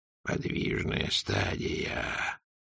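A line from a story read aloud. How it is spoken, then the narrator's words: Whisper. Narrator (Russian): прошептал Ветрамсдумс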